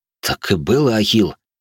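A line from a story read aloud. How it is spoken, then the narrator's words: Confused muttering. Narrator (Russian): Растерянно пробормотал воин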